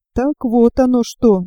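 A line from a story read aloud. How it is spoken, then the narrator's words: Quiet and sad. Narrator (Russian): тихо и печально проговорила она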